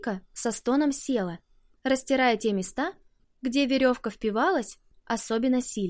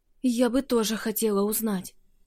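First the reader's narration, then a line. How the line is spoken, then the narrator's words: Hoarse reply. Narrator (Russian): хрипло ответила Вика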